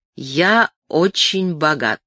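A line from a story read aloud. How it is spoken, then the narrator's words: Slow. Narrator (Russian): начал он медленно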